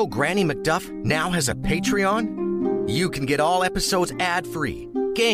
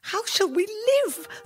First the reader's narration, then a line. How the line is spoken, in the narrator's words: the woman cried